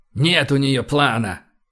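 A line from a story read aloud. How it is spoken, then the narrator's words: Irritated. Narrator (Russian): Кэп раздраженно пошевелил усами и добавил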